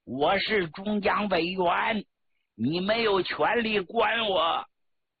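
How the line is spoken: Roaring. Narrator (Chinese): 张国焘吼叫着对周恩来说

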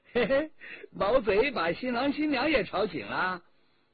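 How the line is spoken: Smiling cheerfully. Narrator (Chinese): 魏春华笑吟吟的

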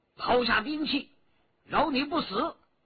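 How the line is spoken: Shout. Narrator (Chinese): 徐天红叫道

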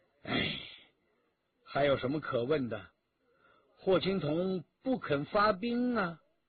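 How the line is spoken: Sighing. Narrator (Chinese): 徐天红叹了口气

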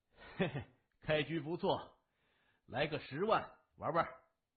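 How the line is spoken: Chuckling middle-aged man. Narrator (Chinese): 戴眼镜的中年人 嘿嘿的笑着说

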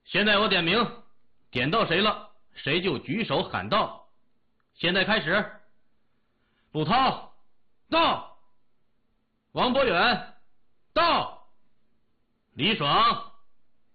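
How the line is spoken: Loud teacher's voice. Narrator (Chinese): 老师 大声说

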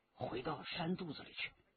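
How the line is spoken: Whispered in ear. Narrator (Chinese): 李元直在他耳边低声地说

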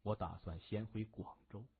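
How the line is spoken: Sighing, dejected. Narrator (Chinese): 向问天长叹口气，落寞地说

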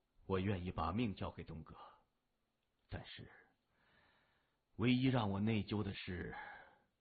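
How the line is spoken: Sighing, low voice. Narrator (Chinese): 何浩然仰天长叹，低声说道

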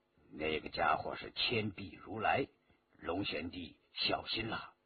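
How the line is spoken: Low voice. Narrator (Chinese): 白振低声说

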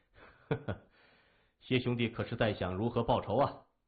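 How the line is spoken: Weak laughter. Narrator (Chinese): 仰面而笑，只是笑声虚弱

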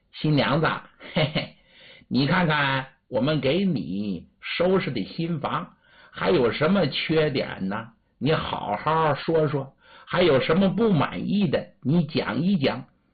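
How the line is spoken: Laughing question. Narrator (Chinese): 秀女儿笑着问

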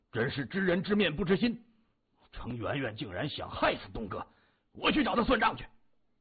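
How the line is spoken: Angry, through clenched teeth. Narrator (Chinese): 土山怒骂一声，他咬牙说

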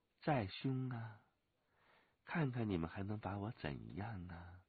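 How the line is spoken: Soft, smiling. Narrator (Chinese): 飞鸿笑柔声说

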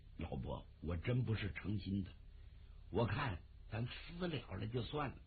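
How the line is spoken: Hurried low voice. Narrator (Chinese): 窦尔敦……赶紧压低声音

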